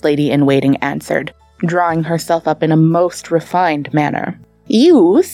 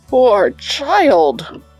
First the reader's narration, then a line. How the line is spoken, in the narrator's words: groaned the Tsar